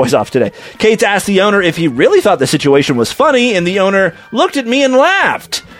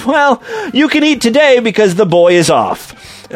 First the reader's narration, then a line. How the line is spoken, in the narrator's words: the owner started laughing, saying